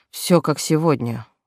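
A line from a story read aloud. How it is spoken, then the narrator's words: Gloomy confirmation. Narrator (Russian): не менее мрачно подтвердил Айвард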